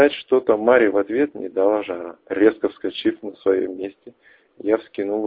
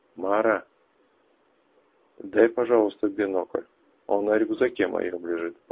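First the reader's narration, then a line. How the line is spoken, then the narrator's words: Asked in an undertone. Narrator (Russian): попросил я вполголоса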